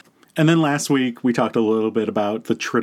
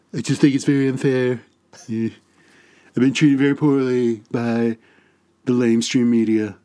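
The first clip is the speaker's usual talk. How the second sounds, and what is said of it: Imitates another person's voice. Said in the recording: “Oh, that's good. I can't outdo your Trump. ... My Trump is terrible. ... No, it's good.”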